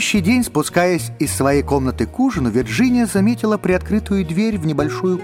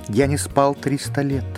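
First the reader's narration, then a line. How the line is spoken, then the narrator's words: Sad, spirit. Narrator (Russian): печально произнес дух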